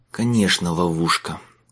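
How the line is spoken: Mutter. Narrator (Russian): пробормотал он

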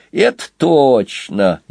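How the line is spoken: Sarcastic. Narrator (Russian): язвительно добавил Сквилл

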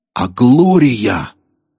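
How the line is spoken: Breathed out. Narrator (Russian): выдохнул он

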